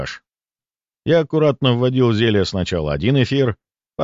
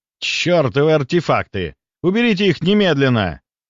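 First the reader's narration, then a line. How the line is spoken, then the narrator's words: Roar. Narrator (Russian): взревел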